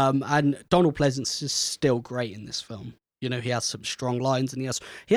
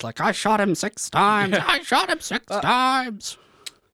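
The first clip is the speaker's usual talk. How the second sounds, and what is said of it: Bad impression of Donald Pleasence. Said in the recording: “this is going to be a really bad impression of him ... Donald Pleasance”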